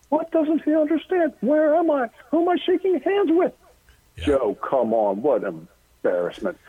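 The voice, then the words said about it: Imitates a radio host's voice. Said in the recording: “I'm hearing Rush Limbaugh's comedy. And every so often, I just regress, and I have to do this impersonation. It's an homage.”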